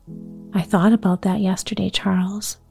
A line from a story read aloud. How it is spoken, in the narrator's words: Ma replied gently